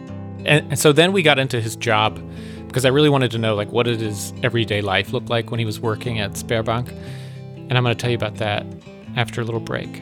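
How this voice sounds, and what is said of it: Polished podcast-host voice. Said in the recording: “You really got your podcast voice out for that one.”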